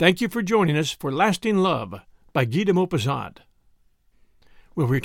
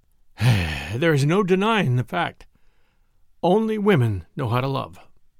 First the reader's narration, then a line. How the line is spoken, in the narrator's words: The Marquis, whose eyes were full of tears, sighed and said